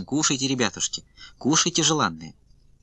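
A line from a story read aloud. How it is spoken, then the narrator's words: Kind murmuring voice. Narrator (Russian): приговаривала добрым голосом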